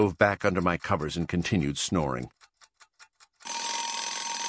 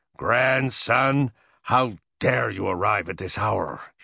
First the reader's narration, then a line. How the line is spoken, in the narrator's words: he thundered